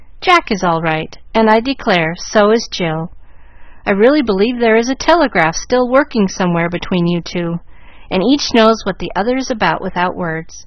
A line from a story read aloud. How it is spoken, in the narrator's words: Minot's voice said cheerfully